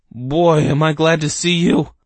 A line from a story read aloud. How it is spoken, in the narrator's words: Herb cried